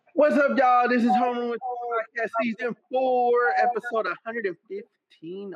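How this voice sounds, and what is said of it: Loud yelling delivery. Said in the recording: “I'm yelling and I heard an echo”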